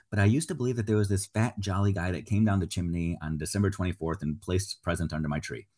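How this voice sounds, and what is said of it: Speaks quietly, lowered voice. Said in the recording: “I'm going to say this quietly”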